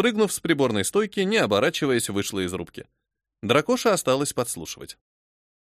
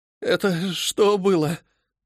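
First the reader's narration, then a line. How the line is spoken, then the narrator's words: Shaken, breathless. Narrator (Russian): выдохнул помощник капитана, пытаясь унять дрожь в руках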